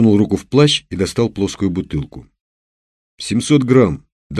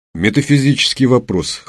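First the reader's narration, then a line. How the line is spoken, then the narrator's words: Snort. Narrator (Russian): хмыкнул Канонников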